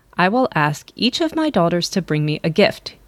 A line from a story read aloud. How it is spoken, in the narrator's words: he said